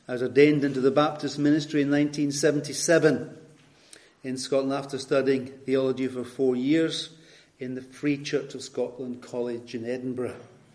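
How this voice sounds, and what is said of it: Scottish accent. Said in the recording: “You probably know from my accent that I hail from Scotland.”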